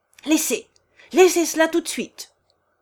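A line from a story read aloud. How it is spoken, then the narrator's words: Shouting, shaking with anger. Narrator (French): cria-t-il, tremblant de colère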